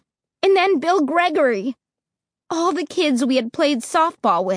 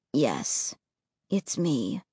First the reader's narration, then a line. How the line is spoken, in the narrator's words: he said softly